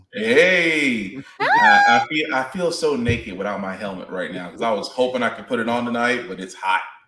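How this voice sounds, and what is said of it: Strained, worn-out voice. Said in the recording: “my voice has been shot”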